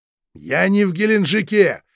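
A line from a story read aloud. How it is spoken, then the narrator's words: Barked. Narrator (Russian): рявкнул Хазин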